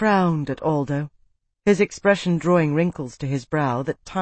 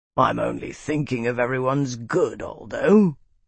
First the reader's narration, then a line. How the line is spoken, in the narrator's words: Cord rumbled